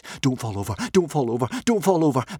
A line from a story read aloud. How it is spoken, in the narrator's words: begged Hiccup